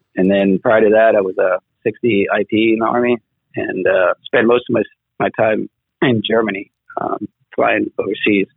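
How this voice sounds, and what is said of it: South African accent. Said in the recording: “I hear you got an accent there... I'm from South Africa originally”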